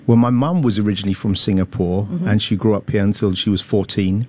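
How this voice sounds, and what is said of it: London English accent. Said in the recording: “It was actually from London. I think London, people mistake my accent.”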